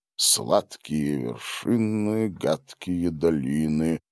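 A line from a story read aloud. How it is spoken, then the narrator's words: Rhythmic muttering. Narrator (Russian): бормотал он в такт шагам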